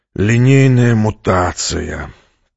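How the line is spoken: Groaning, commander. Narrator (Russian): простонал командор

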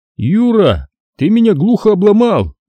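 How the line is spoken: Forced out. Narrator (Russian): выдавил Хасан

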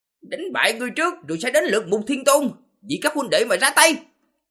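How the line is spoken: Furious dragon-man roaring. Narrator (Vietnamese): Long Tử nổi giận, hóa thành hình dạng đầu rồng thân người, gào lên

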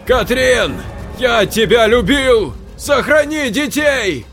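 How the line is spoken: Last desperate shout. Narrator (Russian): Последнее, что он успел выкрикнуть

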